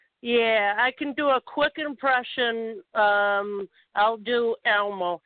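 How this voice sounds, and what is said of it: Usual voice. Nothing is said of it.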